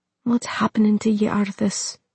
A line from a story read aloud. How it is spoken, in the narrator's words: Muradin said quietly, his voice holding a world of pain and confusion